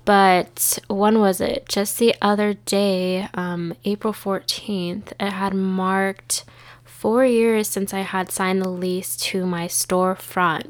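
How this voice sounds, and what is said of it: Congested, stuffy-nosed voice. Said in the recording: “if I sound a little congested. My allergies have been driving me crazy.”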